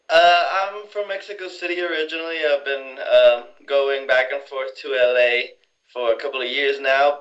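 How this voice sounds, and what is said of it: Speaks with a noticeable accent. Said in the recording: “I hear an accent.”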